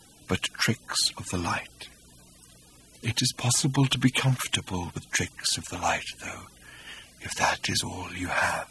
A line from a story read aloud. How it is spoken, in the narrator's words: said Hakdar faintly